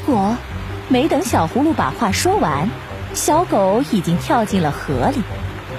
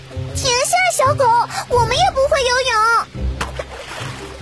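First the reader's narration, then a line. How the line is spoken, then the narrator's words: Loud shout. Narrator (Chinese): 依依大喊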